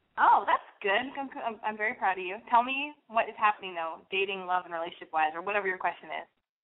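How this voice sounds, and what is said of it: Voice of someone with a cold. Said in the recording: “I was coughing. ... I put you on mute so I could cough because I have a cold.”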